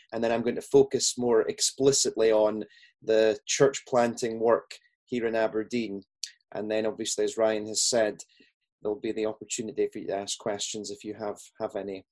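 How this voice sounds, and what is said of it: Scottish accent. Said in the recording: “as you can tell from my accent, I'm Scottish”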